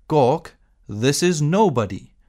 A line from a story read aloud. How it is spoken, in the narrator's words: said loudly